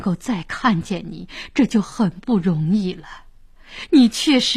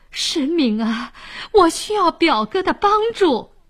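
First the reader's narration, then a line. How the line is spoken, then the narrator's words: Kneeling, pleading. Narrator (Chinese): 沈呆跪在地上哀求说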